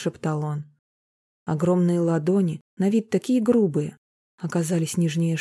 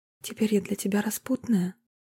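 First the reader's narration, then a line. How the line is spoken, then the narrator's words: Whispered. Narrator (Russian): прошептала Марина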